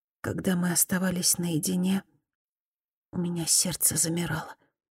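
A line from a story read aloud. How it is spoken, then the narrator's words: Barely audible, shy. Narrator (Russian): Мияко потупилась и чуть слышно добавила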